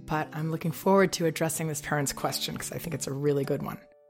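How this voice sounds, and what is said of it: Weak, under-the-weather voice. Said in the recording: “as you can hear in my voice, I'm a little under the weather as well ... I have not even been able to be understood speaking or make the words come out very well”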